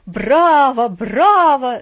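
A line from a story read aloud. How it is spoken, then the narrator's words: Delighted shout, old man. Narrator (Russian): закричал восторженно дедушка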